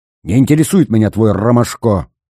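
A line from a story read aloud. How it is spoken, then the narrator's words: Snapped. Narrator (Russian): огрызнулся Зверев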